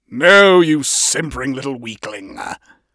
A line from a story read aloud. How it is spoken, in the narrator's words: his father snapped scornfully